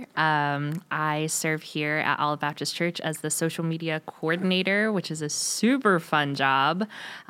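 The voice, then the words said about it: West Coast vocal fry. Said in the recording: “I got all the vocal fry.”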